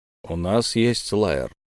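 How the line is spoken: Plain, dead man. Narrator (Russian): сказал мертвец

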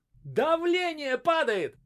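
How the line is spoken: Hysterical shout, doctor. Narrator (Russian): истерично закричал доктор

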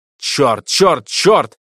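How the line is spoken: Loud shout. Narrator (Russian): закричал он в голос

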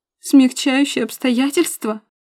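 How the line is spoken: Sobbing harder. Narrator (Russian): Заходится в рыданиях пуще прежнего Милка

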